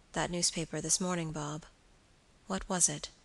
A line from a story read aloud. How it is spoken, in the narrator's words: in a hesitating manner, said quietly